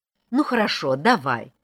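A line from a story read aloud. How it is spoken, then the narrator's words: Irritated. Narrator (Russian): раздраженно сказала Вера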